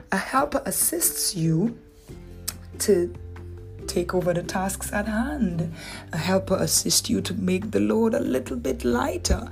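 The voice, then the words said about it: Dominican accent. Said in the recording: “my Dominican accent kicking it.”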